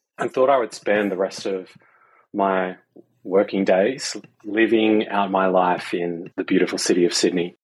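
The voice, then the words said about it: Australian accent. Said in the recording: “my twang, I'm not from around these parts. I actually grew up in Sydney, Australia”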